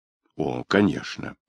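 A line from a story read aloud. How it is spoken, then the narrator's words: Mutter. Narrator (Russian): пробормотал Феликс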